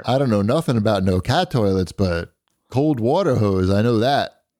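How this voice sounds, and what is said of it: Imitated Ohio plumber's accent. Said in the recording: “I don't know what accent this is, but is that what your plumber sounds like? ... That's the typical Ohio plumber's accent.”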